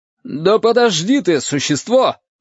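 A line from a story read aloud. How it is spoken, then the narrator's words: Shout. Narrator (Russian): крикнул Пантюхин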